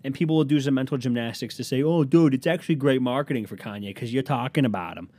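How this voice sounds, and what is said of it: Put-on Boston accent. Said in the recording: “Why is everyone that I'm doing an accent today from Boston? ... from the Northeast”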